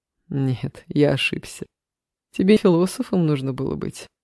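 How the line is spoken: Laughing, slightly confused. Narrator (Russian): рассмеялся Илья, но в этом смехе Алиса уловила некую растерянность

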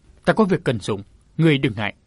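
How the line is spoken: Curt, cold reply. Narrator (Vietnamese): Người được gọi là sư huynh trả lời bằng một câu ngắn gọn lạnh lùng

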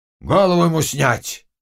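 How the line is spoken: Shouting from afar. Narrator (Russian): крикнул с полю Хмельницкий

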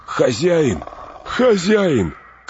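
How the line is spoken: Shouting. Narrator (Russian): крикнул Сэм, обретая голос

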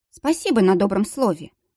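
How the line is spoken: Snorted. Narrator (Russian): фыркнула Анита

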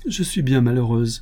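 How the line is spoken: Sobbing child, muffled. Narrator (French): reprit l'enfant qui sanglotait plus fort et cachait sa figure entre ses mains

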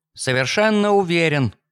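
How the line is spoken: Slightly offended reply. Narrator (Russian): немного обиженно ответил он

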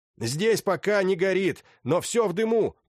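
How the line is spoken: Shouted. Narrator (Russian): прокричал генерал

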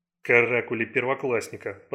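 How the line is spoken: Delighted mutter. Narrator (Russian): пробормотал Райан, тем не менее переполненный восторгом

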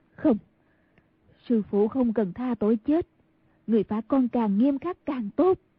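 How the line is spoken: Ashamed. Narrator (Vietnamese): đột nhiên lại đổi lòng sợ hãi thành xấu hổ nói

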